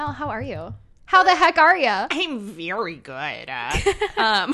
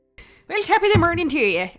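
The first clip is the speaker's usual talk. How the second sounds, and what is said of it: Put-on Irish accent, hard R's. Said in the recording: “I think that's Ireland... With the Ireland, you have the hard R's... The hard R's with the, with the Irish accent”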